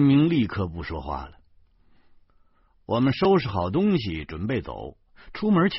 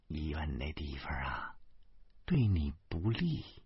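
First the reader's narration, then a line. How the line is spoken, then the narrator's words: Quiet. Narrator (Chinese): 老婆小声说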